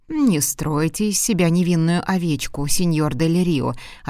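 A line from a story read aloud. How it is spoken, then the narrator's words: Plain. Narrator (Russian): ответил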